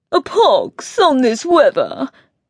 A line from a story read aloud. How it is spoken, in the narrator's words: he said, his voice high and affected